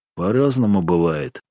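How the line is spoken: Cold. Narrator (Russian): холодно ответил Ильин

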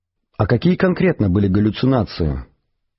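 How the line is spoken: Near whisper. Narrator (Russian): спросил Артур почти шепотом

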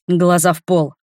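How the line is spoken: Dragon's bark. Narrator (Russian): рявкнул дракон

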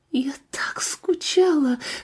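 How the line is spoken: Tearful whisper. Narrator (Russian): сквозь плач прошептала девушка

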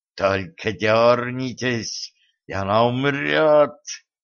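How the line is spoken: Hissing threat. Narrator (Russian): прошипела Зейнаб

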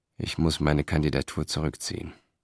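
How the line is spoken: Murmuring. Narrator (German): murmelte er

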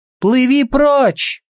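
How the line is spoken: Shouting. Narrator (Russian): снова крикнула Сельда

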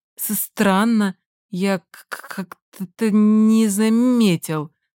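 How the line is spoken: Stammering. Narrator (Russian): Намеренно пытается проговорить он и, конечно, сразу запинается сильнее

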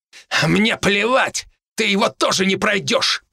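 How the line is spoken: Through gritted teeth. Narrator (Russian): процедил

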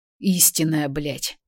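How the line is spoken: Hoarse rasp. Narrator (Russian): Прохрипел он

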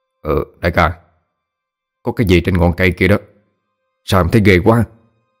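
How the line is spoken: Teeth chattering, stammering. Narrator (Vietnamese): Hai hàm răng đánh lô tô lên, lắp bắp nói

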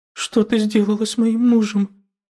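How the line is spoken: Frightened woman speaking. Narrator (Russian): испуганно проговорила женщина

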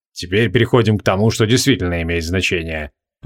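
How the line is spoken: Grumbling. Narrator (Russian): проворчал Креол

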